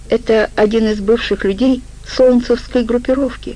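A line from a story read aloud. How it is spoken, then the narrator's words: Timid answer. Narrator (Russian): робко ответил Жопа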